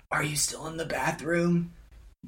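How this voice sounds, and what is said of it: Raspy whisper. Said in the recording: “She's whispering.”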